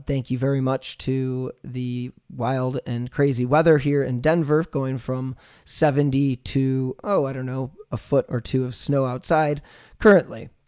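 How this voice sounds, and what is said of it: Sick, under-the-weather voice. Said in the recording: “I am under the weather this week, as you can tell by my voice.”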